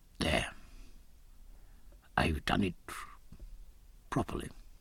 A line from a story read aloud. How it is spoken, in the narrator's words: said Clonfert, in a barely intelligible murmur, out of the side of his ruined, bandaged face